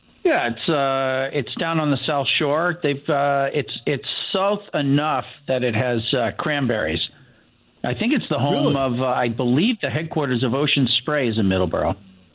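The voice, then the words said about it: Boston accent. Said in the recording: “I grew up outside of Boston, but I've lost my accent... No, you haven't lost your accent.”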